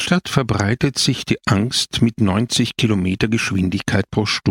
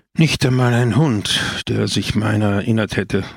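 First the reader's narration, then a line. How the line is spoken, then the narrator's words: Sighing. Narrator (German): seufzte Don Camillo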